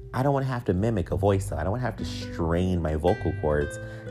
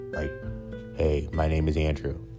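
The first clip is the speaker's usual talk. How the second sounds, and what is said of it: Put-on deep voice. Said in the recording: “I can imitate a deep voice. I can do that easily... It probably sounded weird”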